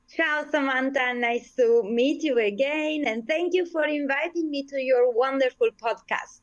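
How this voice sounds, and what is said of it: Sicilian Italian accent, melodic. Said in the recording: “I love your accent ... But I love the Sicilian, and yours is just like a song.”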